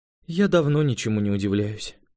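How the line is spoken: Weary young woman. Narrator (Russian): устало призналась девушка

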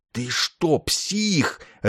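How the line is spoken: Furious hiss. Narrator (Russian): остервенело зашипел Ясарин

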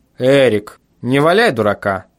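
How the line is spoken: Stern. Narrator (Russian): сказал я строго

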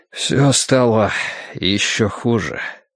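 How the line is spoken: Breathless exhale. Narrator (Russian): выдохнул Эштон

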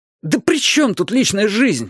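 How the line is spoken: Louder wailing. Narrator (Russian): взвыл я еще громче

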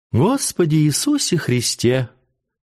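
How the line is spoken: Sweet tone. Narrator (Russian): отвечала Урсулинка сладким тоном

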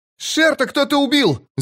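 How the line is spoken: Shouting. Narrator (Russian): закричал он

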